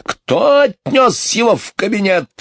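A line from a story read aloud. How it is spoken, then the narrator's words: Angry bark. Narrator (Russian): рявкнул он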